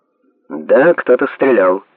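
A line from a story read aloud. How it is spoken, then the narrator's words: Calm. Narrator (Russian): спокойно сказал Майкл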